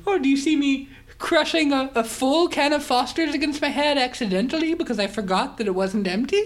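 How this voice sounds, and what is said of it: Put-on Irish accent. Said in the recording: “Oh, you're getting Irish on me.”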